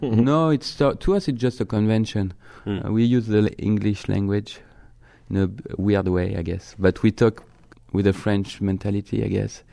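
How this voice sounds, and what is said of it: French accent in English. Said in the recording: “you can talk in that French accent all day”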